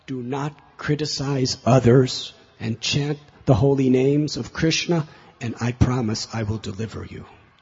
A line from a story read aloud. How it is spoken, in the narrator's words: he cried out